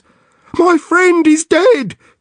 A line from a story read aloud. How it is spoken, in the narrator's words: he cries to the operator